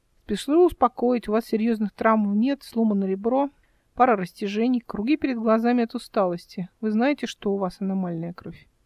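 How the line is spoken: Calm, casual question. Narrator (Russian): Он это спросил так спокойно, словно между прочим

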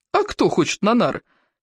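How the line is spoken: Giggling. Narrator (Russian): хихикнул второй

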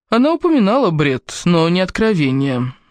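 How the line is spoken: Hesitant, uncertain. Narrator (Russian): наконец произнес Годфри неуверенно, как человек, говорящий чистую правду, но подразумевающий нечто совсем иное

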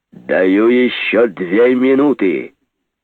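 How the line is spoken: Deafening, thunderous voice. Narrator (Russian): Оглушительно прогремел голос Жеглова

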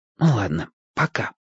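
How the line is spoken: Whispering. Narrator (Russian): шепнул я Чибису

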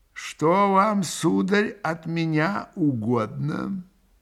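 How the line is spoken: Old man, slow, stern, polite. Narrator (Russian): проговорил старик, медленно, раздельно, строго, но вежливо

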